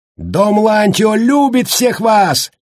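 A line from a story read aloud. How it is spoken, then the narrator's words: Shout. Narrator (Russian): выкрикнул он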